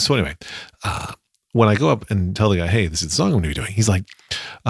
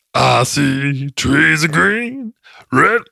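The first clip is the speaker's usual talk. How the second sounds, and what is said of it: Imitates another person's singing voice. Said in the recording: “when you're doing the Louis Armstrong impression”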